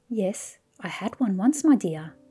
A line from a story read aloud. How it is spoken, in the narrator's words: said calmly